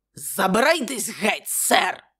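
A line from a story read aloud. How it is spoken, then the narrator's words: Angry exclamation. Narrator (Ukrainian): сердито вигукнув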